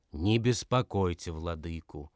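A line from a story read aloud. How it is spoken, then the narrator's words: Angry. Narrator (Russian): проговорил сердито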